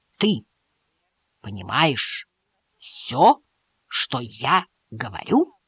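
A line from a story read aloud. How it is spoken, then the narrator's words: Very slow and distinct. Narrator (Russian): очень медленно и отчетливо произнес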